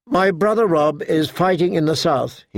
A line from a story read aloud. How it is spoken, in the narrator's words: he said